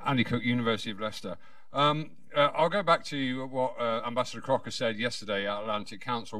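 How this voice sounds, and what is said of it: British accent. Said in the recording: “another British accent”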